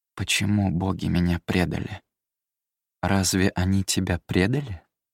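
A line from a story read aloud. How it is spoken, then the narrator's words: Goddess asking quietly. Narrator (Russian): Столь же тихо спросила богиня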